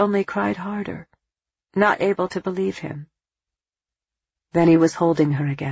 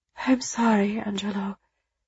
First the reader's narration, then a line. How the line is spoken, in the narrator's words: moaned softly